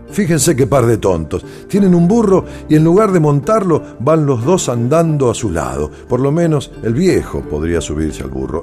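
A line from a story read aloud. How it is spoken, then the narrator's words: Boys shouting, laughing mockingly. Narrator (Spanish): un grupo de muchachos se rió de ellos gritando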